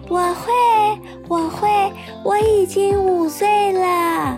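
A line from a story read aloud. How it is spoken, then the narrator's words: Loud. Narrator (Chinese): 小慧大声地说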